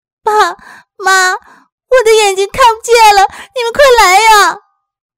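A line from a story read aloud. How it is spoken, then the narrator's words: Crying out, panicked. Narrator (Chinese): 丽丽在房间里哭喊着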